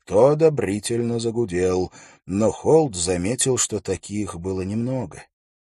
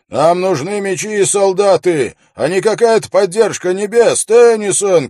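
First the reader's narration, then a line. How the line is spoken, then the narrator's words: Crowd shouting. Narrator (Russian): кричали в толпе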